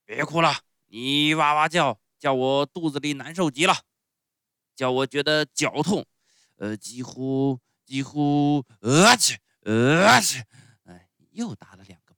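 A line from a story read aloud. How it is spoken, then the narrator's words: Feigned fierce shout. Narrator (Chinese): 打过喷嚏以后，木偶班班主还是装出很凶的样子，对匹诺乔叫道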